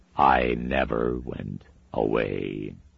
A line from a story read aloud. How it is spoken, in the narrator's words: he said, and his voice was a dark echo from the night places, a cold slab of sound, gray and dead